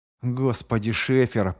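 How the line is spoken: Muttered to himself. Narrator (Russian): пробормотал про себя Роше

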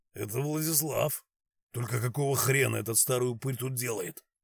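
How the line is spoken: Quiet. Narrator (Russian): Степаныч тихо проговорил

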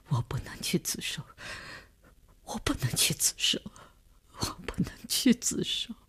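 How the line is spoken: Sobbing, breaking down, repeating. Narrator (Chinese): 李大公哭得悲悲切切，他的精神看上去已经濒于崩溃，只是不停地重复着

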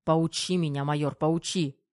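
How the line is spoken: Growled. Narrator (Russian): рыкнул Головин

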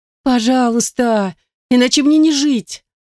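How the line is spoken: Whining, pleading. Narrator (Russian): проскулила Зарема

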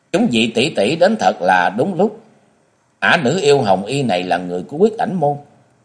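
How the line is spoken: Loud call, young woman. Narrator (Vietnamese): thiếu nữ áo vàng lớn tiếng gọi

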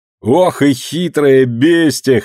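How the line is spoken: Laughing loudly. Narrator (Russian): хохотал Вася

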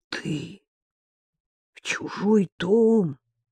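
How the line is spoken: Finally forced out. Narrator (Russian): наконец выдавил

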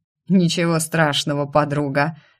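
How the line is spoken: Snorting chuckle. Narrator (Russian): хмыкнул Марко

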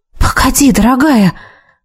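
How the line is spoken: Faint uncertain whisper. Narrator (Russian): То ли прошептала, то ли подумала я, не понимая, как лучше к ней обращаться

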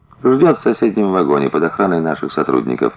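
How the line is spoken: Calm explanation. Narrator (Russian): спокойно объяснил офицер

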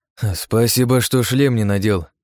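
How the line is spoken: Snorting. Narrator (Russian): хмыкнул

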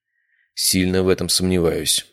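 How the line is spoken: Heavy sigh. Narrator (Russian): сказал Андрей и тяжко вздохнул

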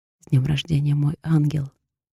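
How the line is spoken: Whisper in the ear. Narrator (Russian): прошептал мне на ухо

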